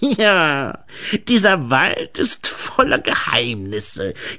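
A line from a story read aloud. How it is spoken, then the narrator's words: Croaking voice. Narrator (German): krächzte da eine Stimme, die nicht Grete gehörte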